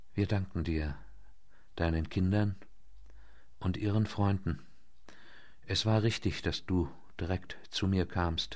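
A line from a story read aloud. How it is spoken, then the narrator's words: Barely audible voice. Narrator (German): Mit kaum hörbarer Stimme sagte er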